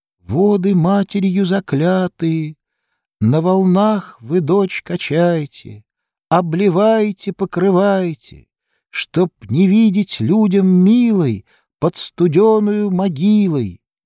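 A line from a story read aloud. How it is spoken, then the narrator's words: Thin singing voice. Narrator (Russian): кто-то на реке поет тоненьким голосом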